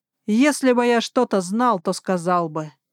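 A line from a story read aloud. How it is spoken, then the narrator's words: Snapping back. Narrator (Russian): огрызнулся Хекс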